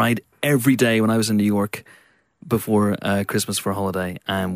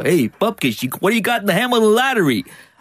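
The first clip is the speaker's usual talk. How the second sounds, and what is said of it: Put-on New York accent. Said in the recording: “I assimilated the New York accent.”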